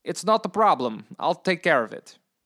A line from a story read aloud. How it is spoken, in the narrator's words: Gustav said over the phone in his distinct Russian accent